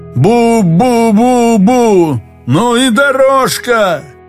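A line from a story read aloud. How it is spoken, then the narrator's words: Shouting. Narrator (Russian): Кто-то закричал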